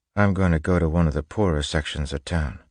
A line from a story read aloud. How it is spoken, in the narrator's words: Spook said quietly